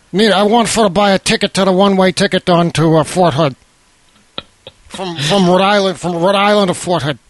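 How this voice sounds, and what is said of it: Imitates another person's voice. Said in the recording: “your impression ... our Dan Bedondi voices”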